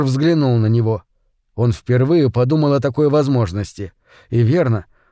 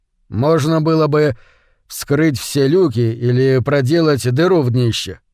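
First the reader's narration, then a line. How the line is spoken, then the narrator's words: Plain. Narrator (Russian): ответил Кип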